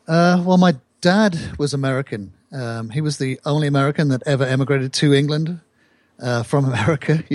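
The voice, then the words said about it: British accent. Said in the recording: “There's no doubt from your accent, you were born in the UK”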